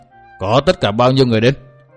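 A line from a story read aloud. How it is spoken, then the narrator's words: Harsh old woman. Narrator (Vietnamese): Bà gằn giọng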